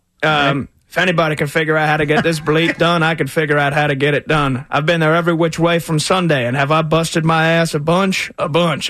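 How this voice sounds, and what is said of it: Jerry Jones impression accent. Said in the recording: “you want me to do it in Jerry Jones' accent?”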